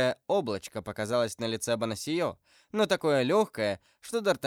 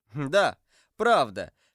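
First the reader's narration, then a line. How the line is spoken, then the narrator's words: Young man laughing. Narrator (Russian): смеясь отвечал молодой человек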